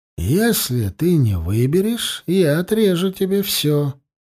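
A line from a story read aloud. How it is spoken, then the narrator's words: Flat even voice. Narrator (Russian): ровным голосом отвечал Тулум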